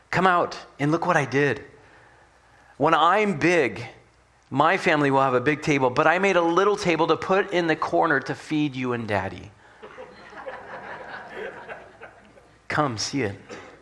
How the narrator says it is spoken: he shouted

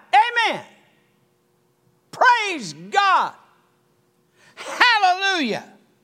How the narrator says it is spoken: the preacher he'd shout out

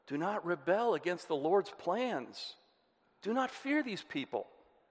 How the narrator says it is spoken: Joshua pleaded with the people

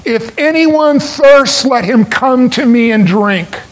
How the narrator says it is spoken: Jesus cried out

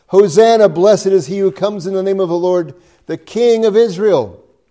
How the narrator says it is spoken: others went out to meet Jesus, and they cried

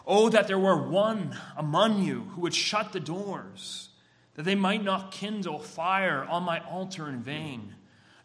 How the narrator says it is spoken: The Lord cried out there

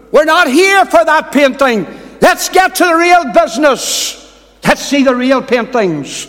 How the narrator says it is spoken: a voice shouted in the room

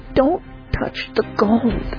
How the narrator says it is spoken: she pleaded again

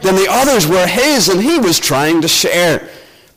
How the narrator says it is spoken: moaned in despair

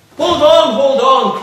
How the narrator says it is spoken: cried an excited band of fiends

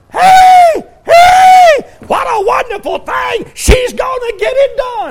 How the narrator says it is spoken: they're hollering

